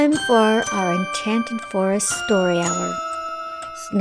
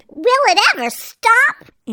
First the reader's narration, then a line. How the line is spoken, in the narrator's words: Aunt Sponge shouted